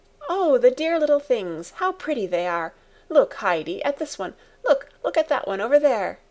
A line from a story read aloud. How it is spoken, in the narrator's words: Clara, pleased with their gambols, kept on exclaiming